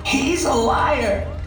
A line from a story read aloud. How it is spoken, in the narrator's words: the woman rasps